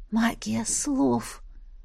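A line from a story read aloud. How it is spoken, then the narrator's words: Mental whisper. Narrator (Russian): мысленно прошептала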